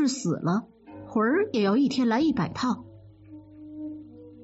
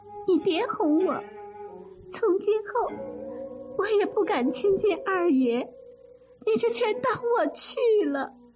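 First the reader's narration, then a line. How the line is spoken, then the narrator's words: Crying. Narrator (Chinese): 黛玉……就哭着说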